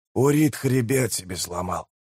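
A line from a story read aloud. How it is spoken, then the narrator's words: Through gritted teeth. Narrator (Russian): процедил прежний тиблор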